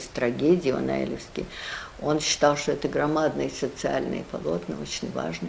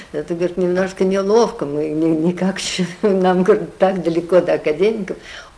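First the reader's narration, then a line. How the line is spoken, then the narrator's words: Laughing. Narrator (Russian): Александр Яковлевич смеялся, говорит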